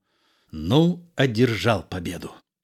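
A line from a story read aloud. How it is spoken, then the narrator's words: Quiet. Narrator (Russian): Лебрек, Сирано тихо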